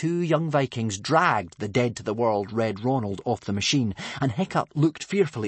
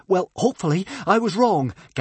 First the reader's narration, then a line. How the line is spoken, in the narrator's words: gasped Fishlegs